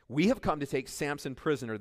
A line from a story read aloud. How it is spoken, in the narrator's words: they answered